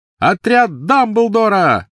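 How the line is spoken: Shout. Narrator (Russian): выкрикнул он

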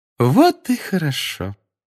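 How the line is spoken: Sweet sing-song voice. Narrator (Russian): Сладким голосом пропела профессор Амбридж

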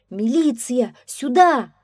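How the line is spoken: Agitated shout. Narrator (Russian): взволнованно закричал

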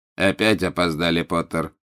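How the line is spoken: Cold. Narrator (Russian): холодно произнес Снег

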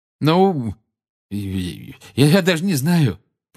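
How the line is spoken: Flustered mumble. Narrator (Russian): промямлил Гарри, которого эта просьба о поддержке привела в смятение

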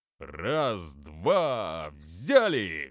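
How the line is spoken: Loud commanding. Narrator (Russian): громко командовал Боча

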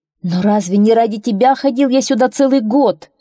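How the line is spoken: Young man exclaiming. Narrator (Russian): воскликнул юноша

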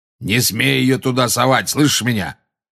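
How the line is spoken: Roar. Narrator (Russian): проревел Грюм

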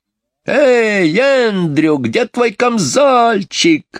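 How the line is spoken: Shouted, mimicking shrill voice. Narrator (Russian): закричал ему вслед Майкл, стараясь подражать визгливому голосу мисс Ларк

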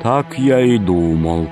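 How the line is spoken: Gloomy. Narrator (Russian): сказал он мрачно

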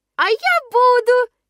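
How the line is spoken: Sudden squeak. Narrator (Russian): неожиданно пропищал мой милый Пятница

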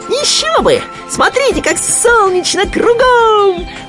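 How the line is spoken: Squeal. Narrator (Russian): взвизгнул Хрюня

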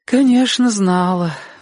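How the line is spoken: Sighing. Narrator (Russian): вздохнула тетя Лариса

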